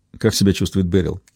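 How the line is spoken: Quiet serious question. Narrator (Russian): Посерьезнее, тихо спросил Ричард

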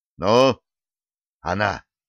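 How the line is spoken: Agitated sigh. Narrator (Russian): Командующий флотом взволнованно вздохнул

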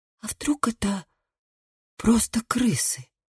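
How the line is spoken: Whispered. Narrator (Russian): прошептала Габриэла

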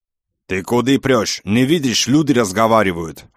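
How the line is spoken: Roaring man. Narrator (Russian): взревел кавказец

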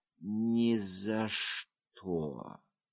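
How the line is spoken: Weak voice. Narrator (Russian): она слабым голосом произнесла

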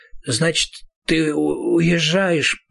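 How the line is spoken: Mumbled. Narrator (Russian): пробормотал Роланд

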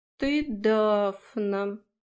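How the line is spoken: Drawling. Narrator (Russian): протянул фей

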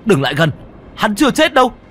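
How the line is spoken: Weak, dying shout. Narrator (Vietnamese): Trần Phong dùng chút hơi tàn mà hét lên

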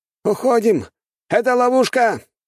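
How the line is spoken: Shouting. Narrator (Russian): кричал, судя по всему, офицер

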